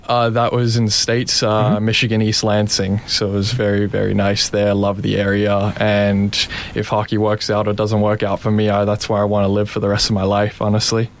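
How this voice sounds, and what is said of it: Australian accent with picked-up American tinge. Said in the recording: “You're Australian. You just spent that much time that you picked up the accent. ... Yeah, cuts in and out.”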